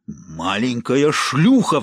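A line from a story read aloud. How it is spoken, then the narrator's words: Furious roar. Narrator (Russian): взревел он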